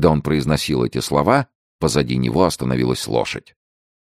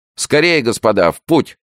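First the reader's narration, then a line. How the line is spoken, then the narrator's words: Shouted. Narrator (Russian): крикнул де Гиш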